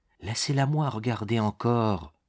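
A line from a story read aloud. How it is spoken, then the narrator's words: Very soft voice. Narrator (French): dit-elle d'une voix très douce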